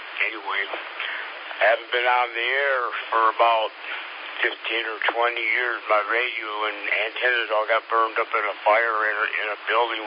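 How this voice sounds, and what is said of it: Hoarse, strained voice. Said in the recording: “I'm kind of hoarse tonight. ... I lost my voice.”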